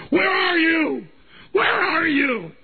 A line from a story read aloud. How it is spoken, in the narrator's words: I scream